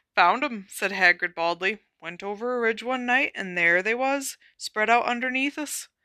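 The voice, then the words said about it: Awkward put-on character accent. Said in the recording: “this accent is awful and I'm so sorry, but I'm going with it.”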